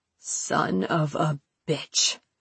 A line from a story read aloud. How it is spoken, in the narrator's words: Sam muttered